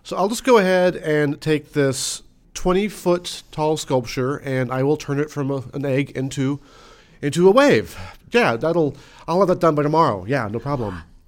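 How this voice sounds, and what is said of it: Dry, deadpan sarcastic delivery. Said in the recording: “sarcasm not transmitting at all ... I was being sarcastic. ... Your wit is very dry.”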